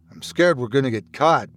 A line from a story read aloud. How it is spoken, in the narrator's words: Bradley responded, teeth clenched tightly together